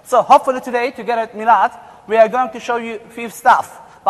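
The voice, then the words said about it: German-Turkish accented English. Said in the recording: “we both of us have Turkish parents. Both of us were born in Germany ... this is the reason why you hear this accent”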